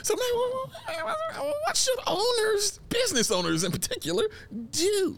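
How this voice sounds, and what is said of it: Weird mousy falsetto. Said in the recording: “Especially in a weird mousy falsetto.”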